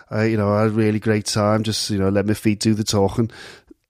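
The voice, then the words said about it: Wayne Rooney impression, non-posh accent. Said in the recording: “that's Wayne Rooney, who sort of speaks like this ... Wayne Rooney ... not posh in terms of his accent”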